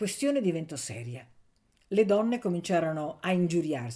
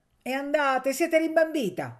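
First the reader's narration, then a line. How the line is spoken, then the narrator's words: Heated shouting. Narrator (Italian): gridò accalorandosi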